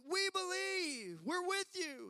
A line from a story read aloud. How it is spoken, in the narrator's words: they said, the crowd yelled